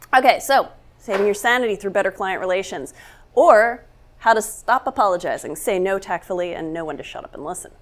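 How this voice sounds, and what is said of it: Voice affected by a cold. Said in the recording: “I have a cold, so if my voice gives out”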